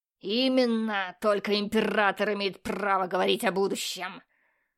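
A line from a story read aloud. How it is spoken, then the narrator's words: Barked. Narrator (Russian): рявкнул инквизитор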